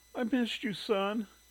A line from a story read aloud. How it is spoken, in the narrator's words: she sobbed